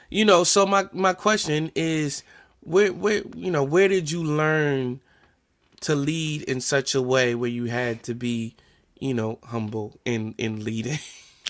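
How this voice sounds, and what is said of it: New Jersey accent. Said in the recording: “my New Jersey accent is betraying me, I said artistic, not autistic.”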